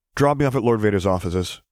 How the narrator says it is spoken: he decided quickly

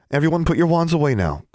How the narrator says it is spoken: Gwendolyn said

